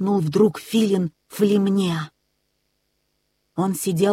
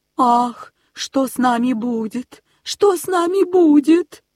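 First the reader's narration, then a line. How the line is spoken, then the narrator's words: Moaning. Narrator (Russian): стонала Аистиха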